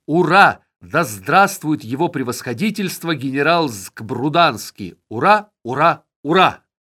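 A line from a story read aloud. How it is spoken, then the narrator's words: Thousands of voices shouting. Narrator (Russian): тысячи голосов крикнули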